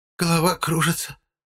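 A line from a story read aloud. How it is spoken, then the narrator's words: Barely audible. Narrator (Russian): Еле слышно сказала она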